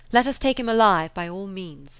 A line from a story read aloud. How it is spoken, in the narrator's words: The English, taking advantage of his weakness, cried